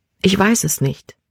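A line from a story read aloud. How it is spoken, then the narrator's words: Quiet. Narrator (German): sagte sie leise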